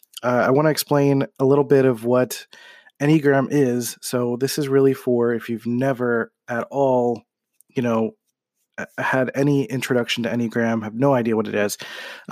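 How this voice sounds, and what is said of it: Sick voice, heavy breathing. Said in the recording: “I apologize for my voice and uh, for kind of breathing a little heavier because I'm kind of sick right now”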